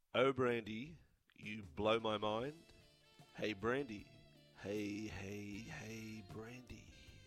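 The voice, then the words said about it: Scary put-on voice. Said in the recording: “That's scary, that voice you're putting on. ... That voice you're putting on is going to... It's quite scary.”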